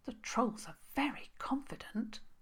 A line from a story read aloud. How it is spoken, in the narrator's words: Princess Isobel hissed to Harriet the Hare